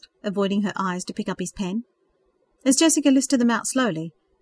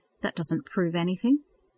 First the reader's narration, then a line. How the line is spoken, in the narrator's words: Rose murmur